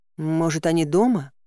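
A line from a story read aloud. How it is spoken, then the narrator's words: Timid question. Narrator (Russian): робко спросила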